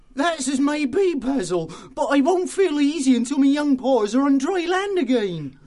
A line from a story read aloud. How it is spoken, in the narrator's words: the otter said nervously